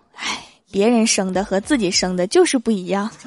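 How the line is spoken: Sighing lament. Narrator (Chinese): 郭大嫂就感叹道

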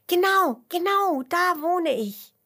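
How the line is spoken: Earthworm calling out. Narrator (German): ruft der Regenwurm

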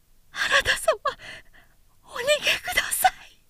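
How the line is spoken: Screaming, weeping woman. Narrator (Japanese): と悲鳴を上げた発女は泣いていた

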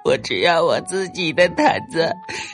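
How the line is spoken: Crying. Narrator (Chinese): 弗罗拉哭泣着说

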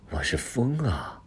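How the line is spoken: Soft voice. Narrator (Chinese): 那个声音轻声说

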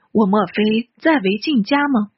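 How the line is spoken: Old man sighing. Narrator (Chinese): 老头……方叹息道

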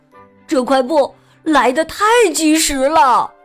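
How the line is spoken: Loud. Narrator (Chinese): 小刺猬大声说

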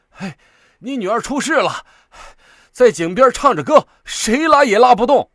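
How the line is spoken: Breathless, urgent. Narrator (Chinese): 那人跑到他家门前，连气儿都不及喘上一口，就说

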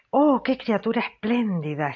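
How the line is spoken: Panting exclamation. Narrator (Spanish): exclamó jadeando

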